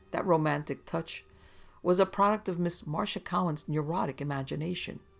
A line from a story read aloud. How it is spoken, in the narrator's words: he chuckled